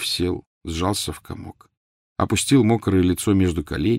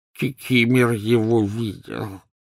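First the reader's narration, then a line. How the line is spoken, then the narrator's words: Wheezy rasp. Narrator (Russian): просипел эльф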